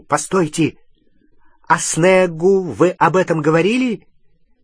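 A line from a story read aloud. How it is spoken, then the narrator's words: Sudden shout. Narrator (Russian): Гарри вдруг крикнул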